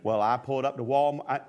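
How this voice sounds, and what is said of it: Put-on southern drawl. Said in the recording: “I don't know why I'm talking in a southern drawl.”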